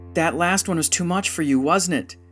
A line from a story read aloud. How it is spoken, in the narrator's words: Dijsonen shouted through the door